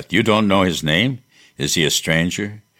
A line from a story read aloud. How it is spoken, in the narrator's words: Maria cried